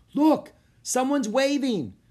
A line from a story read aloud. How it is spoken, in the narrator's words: cried Annie